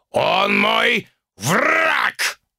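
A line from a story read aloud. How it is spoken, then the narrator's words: Growled. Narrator (Russian): рыкнул тигриный бог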